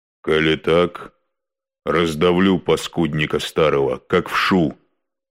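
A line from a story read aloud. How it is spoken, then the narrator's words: Menacing promise. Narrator (Russian): грозно пообещал Илья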